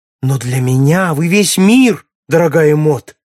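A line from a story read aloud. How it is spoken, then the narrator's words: Passionate exclamation. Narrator (Russian): страстно воскликнул Аллен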